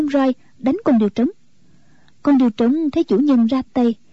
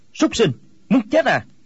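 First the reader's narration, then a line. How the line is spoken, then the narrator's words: Sharp angry shout. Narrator (Vietnamese): Quách Tĩnh quát lên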